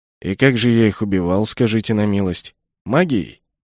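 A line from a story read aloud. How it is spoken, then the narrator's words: Snorting, wry. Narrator (Russian): Я хмыкнул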